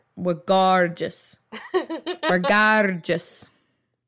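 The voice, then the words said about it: Terrible put-on accent. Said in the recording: “That's a terrible accent.”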